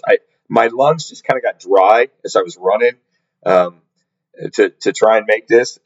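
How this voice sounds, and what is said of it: Hoarse, gravelly, lower-pitched voice. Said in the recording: “hoarseness comes from. I don't know if you can tell. I, am a little hoarse. ... I got a frog in my throat now ... So I'm a little more gravelly, a little bit lower in, in octave.”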